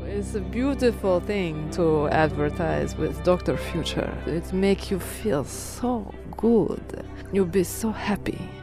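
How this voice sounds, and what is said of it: Sexy Slavic accent. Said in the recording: “I will say it with sexy Slavic accent.”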